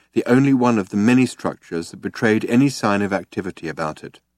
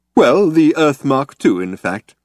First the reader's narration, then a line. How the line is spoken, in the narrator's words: said Slarty Bartfast cheerfully